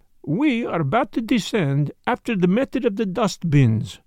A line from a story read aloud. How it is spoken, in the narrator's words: he explained cheerfully